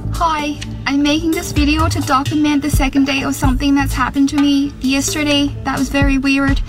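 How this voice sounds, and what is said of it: Irish-sounding accent. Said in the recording (Dutch): “met een rare stem ... I woke up with an Irish accent ... plots geen Australisch, maar een Iers accent”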